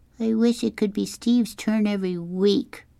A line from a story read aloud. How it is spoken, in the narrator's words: Kevin whined